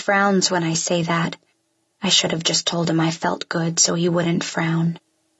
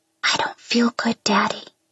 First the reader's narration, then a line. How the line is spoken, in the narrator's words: I whisper